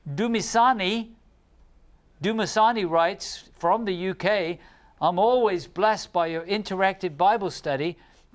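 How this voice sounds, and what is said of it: British accent. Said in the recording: “I will talk with a British accent”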